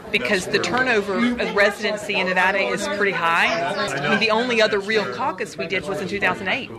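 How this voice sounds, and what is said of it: Southern American accent. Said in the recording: “You can tell by her southern accent”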